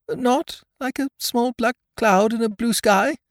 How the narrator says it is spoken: said Pooh anxiously

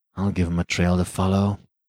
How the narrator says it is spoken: muttered Rainsford

